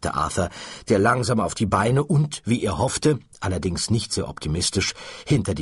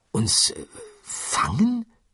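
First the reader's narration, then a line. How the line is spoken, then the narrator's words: Murmur. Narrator (German): murmelte Arthur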